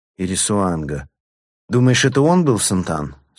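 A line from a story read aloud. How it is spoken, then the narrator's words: Plain question. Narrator (Russian): спросил заместитель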